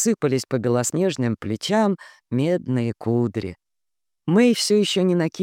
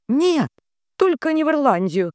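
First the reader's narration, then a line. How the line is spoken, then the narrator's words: Horrified cry. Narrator (Russian): в ужасе выкрикнула Мэйовин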